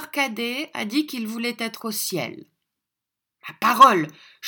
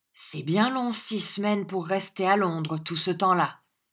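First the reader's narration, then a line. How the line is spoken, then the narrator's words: Plain. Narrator (French): dit-il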